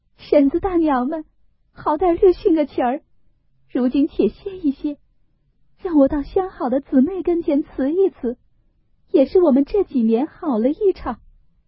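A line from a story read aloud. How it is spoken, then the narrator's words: Tearful pleading. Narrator (Chinese): 思琪因又哭告道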